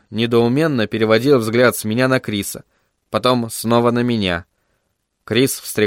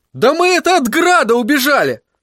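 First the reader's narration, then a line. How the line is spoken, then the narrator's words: Ashamed, angry shout. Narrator (Russian): Красный от стыда и злости крикнул Тедди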